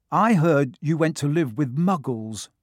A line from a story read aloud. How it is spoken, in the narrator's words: said Ron